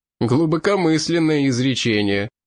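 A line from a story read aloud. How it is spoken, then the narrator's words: Laughing. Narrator (Russian): рассмеялся русич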